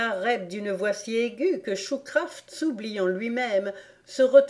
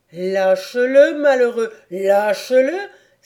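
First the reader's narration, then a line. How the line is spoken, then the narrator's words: Exclaimed in a thundering voice. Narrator (French): s'écria-t-il d'une voix tonnante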